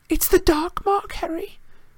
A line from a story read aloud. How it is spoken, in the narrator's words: Hermione moaned